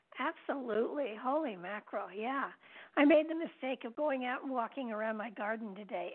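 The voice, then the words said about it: Croaky, nearly lost voice. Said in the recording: “the pollen has gotten to me, so I'm going to croak my way through the show... My voice is gone.”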